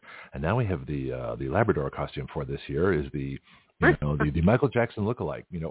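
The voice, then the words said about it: Mock serious announcer voice. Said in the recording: “serious voice”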